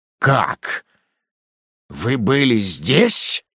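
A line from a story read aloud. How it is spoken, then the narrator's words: Rude question. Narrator (Russian): грубо спросил Ругон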